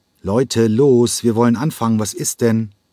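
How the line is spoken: Impatient call. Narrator (German): Als das Aufstellen ihm nicht schnell genug ging, rief er ungeduldig

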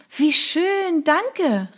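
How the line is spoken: Delighted exclamation. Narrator (German): rief ich

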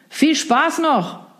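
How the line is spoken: Call drowned by waves. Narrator (German): rief der noch, bevor die laut brechenden Wellen jedes weitere Wort verschluckten

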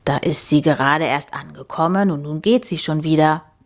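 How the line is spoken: Murmuring. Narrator (German): murmelte

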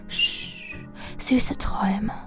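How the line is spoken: Whispered. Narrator (German): ich flüsterte nur

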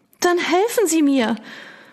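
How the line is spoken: Pleading. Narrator (German): Sie flehte mich förmlich an

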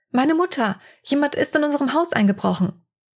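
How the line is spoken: Panicked young woman screaming. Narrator (German): Die 18-Jährige schreit panisch

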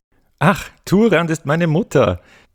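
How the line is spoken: Little girl giggling. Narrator (German): die Kleine kicherte

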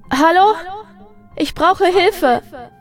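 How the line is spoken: Shouting as loud as possible. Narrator (German): Eileen holte Luft und rief so laut sie konnte

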